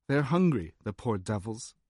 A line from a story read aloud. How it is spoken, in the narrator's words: the man replied flatly in an English accent